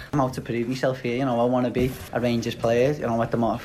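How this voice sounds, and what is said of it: Scouse accent. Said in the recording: “There is no mistaking that accent. That is as scouse as I've ever heard.”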